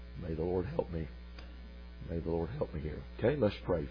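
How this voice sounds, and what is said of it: Weak voice. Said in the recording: “My voice is a little weak for some reason this evening.”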